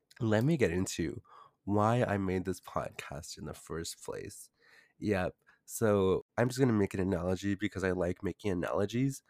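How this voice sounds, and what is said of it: Congested, deeper voice than usual. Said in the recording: “my voice is actually a bit higher... I woke up with cold symptoms, congestion, runny nose, and also a deeper voice. My throat actually hurts right now... I will have a deep voice”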